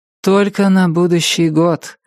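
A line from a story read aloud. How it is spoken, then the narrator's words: Sigh. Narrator (Russian): вздохнула Полли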